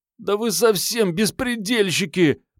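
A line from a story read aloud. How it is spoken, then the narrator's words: Groan. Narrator (Russian): простонал Пашка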